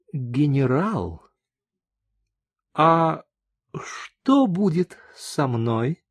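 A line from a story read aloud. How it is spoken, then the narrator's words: Quiet, courteous question. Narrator (Russian): мадам со всей возможной любезностью тихо спросила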